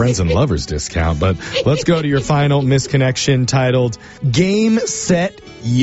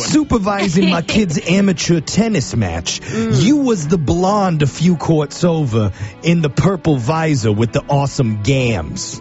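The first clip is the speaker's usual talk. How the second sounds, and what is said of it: Put-on New York accent. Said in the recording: “I feel like this guy's a New York accent. ... I didn't know that was a New York accent”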